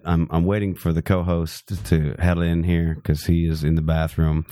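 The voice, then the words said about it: Congested, sick-sounding voice. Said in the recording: “I have a bit of a cold, so my voice sounds fucking awesome this evening. But I will probably cough a bit.”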